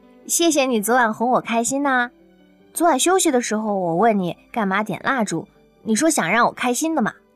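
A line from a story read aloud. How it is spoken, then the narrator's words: Smiling. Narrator (Chinese): 刘亚楠……笑眯眯地说道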